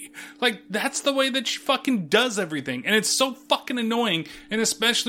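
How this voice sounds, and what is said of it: Usual voice. Nothing is said of it.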